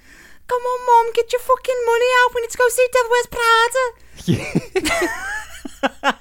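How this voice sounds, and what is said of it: Exaggerated high-pitched put-on Scouse accent. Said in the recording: “just say it a bit higher. So you get the real authentic Scouse accent ... That's how they all talk up there ... milked that accent”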